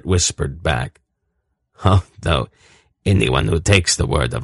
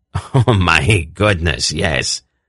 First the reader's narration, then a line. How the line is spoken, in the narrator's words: Urgot laughed